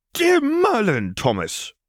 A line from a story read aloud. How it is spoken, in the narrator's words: sputtered Draco